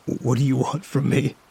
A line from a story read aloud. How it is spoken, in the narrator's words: I continued to stammer while fighting back tears